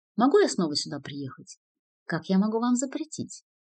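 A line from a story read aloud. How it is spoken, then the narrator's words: Sharp, flustered question. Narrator (Russian): Осознав свой промах, она излишне резко спросила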